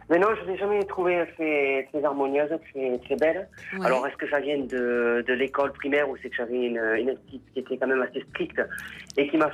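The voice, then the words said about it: Southern French accent. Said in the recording (French): “Oh, quel accent du Sud.”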